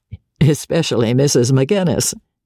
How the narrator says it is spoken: said George, laughing

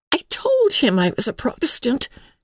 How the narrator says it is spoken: cried Emily

